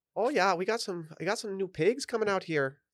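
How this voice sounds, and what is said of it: Put-on Irish accent. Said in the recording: “I don't know how I went Irish there. I was trying to do my Canadian.”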